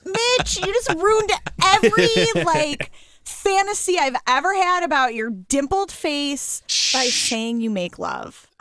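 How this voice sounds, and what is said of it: Screaming. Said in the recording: “I'm sorry that I'm screaming.”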